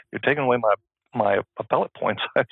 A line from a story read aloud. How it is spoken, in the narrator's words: She whispered to me